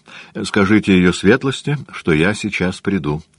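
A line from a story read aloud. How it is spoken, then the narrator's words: Dry. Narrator (Russian): сказал он сухо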